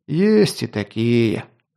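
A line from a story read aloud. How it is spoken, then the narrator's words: Sighing. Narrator (Russian): вздохнул Лунгин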